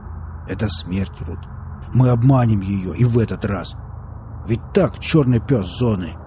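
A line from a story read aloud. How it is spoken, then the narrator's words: Voice with special undertone. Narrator (Russian): в его голосе сейчас были какие-то особые нотки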